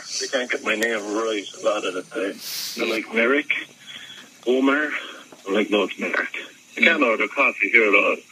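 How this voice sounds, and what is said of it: Irish accent. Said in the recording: “apparently they wanted an Irish guy ... some other Irish ... A lot of people don't even understand my accent at the time. Even though they're looking for Irish people, they think I'm Russian”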